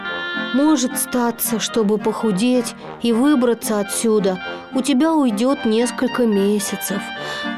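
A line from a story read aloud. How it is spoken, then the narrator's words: Sighing. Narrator (Russian): вздохнул он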